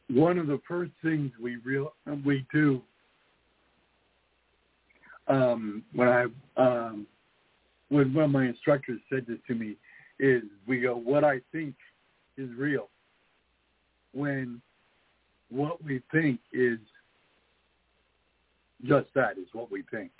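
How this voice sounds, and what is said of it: Hoarse, failing voice. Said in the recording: “I'm losing my voice here.”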